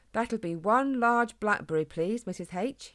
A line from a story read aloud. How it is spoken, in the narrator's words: he said firmly